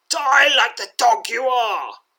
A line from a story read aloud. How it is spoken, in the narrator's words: growls the knight